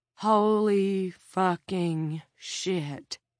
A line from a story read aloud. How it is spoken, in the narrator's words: Jared Norcross breathed